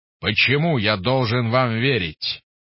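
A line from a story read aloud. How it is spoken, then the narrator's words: Roaring. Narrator (Russian): взревел Гош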